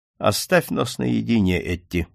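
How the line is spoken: Calm. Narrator (Russian): спокойно проговорил Макмердо

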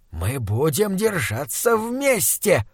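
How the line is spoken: Determined hiss. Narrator (Russian): прошипел он решительно

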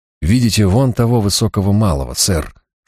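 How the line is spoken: Whispered question. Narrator (Russian): шепотом спросил меня Марк

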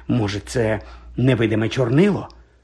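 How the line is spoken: Whispered. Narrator (Ukrainian): прошепотіла вона

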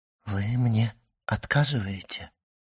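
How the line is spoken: Trembling voice. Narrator (Russian): сказала Мерседес дрогнувшим голосом

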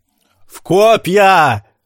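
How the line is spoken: Man yelling from balcony. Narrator (Russian): заорал с балкона мужчина

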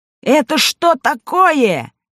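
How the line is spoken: Shouting. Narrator (Russian): закричал полотенец

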